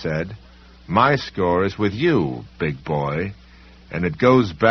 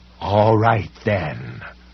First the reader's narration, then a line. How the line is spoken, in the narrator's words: the library cop snarled